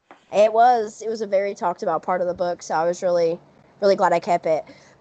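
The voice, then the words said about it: Southern US accent. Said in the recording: “I'm also from the South, as you can tell from the accent... my accent is not nearly as bad as some people's”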